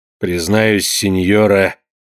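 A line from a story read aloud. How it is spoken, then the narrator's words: Answered coldly. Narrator (Russian): ответил он холодно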